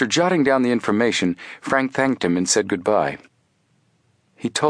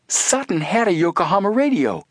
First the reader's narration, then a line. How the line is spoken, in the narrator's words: Joe exclaimed